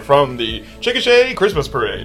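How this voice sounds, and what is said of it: Announcer-style broadcaster voice. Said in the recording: “do his broadcaster voice. ... Broadcasting voice”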